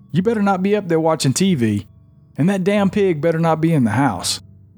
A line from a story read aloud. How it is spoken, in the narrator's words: My dad would hear us upstairs and yell from the shop